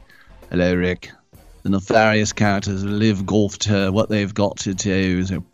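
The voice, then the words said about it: Theatrical put-on English accent. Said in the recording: “It's got a very theatrical delivery... Actually, with an English accent.”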